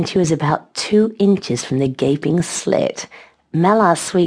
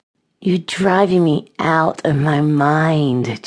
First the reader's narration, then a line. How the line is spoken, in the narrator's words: Chase moaned almost incoherently